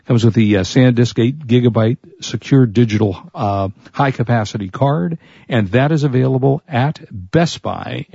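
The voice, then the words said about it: Hoarse, fading voice. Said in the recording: “I'm losing my voice. Like the last 3 or 4 days, I've been losing my voice.”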